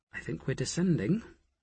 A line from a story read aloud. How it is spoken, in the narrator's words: Nicola muttered